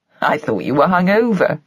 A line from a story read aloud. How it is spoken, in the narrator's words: laughed